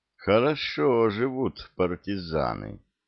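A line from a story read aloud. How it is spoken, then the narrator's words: Drawled, ambiguous tone. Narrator (Russian): с непонятной интонацией протянул лейтенант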